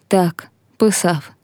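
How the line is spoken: Sad boy's reply. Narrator (Ukrainian): сумно відповів хлопець

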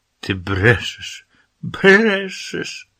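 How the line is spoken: Shouted. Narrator (Ukrainian): вона закричала

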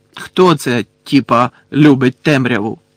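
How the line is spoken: Sharp, slightly frightened question. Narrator (Ukrainian): різко й трохи злякано спитав у Креба з Гойлом Мелфой

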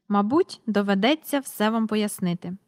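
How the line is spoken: Said calmly. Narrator (Ukrainian): спокійно сказав містер Перук

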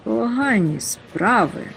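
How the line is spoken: Quiet mutter. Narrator (Ukrainian): пробурмотів стиха Нюхмумрик

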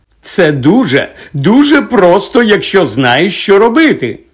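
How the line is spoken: Loud explanation. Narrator (Ukrainian): голосно розтлумачував Гегрідові Локарт

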